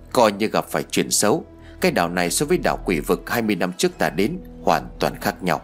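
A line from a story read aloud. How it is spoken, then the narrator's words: Muttered. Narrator (Vietnamese): Nhị gia lẩm bẩm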